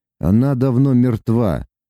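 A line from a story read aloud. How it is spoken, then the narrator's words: Muffled, hollow. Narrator (Russian): глухо проговорил Лука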